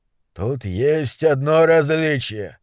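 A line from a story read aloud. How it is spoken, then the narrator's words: Old man rasping. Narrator (Russian): прохрипел старый монстролог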